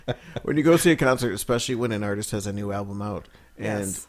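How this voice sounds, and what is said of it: Usual voice. Nothing is said of it.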